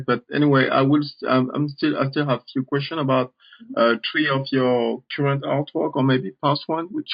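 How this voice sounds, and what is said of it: Non-native English accent. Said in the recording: “Excuse my accent.”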